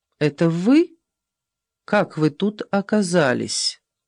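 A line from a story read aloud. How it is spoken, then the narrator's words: Surprisingly calm. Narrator (Russian): Голос ее звучал на удивление спокойно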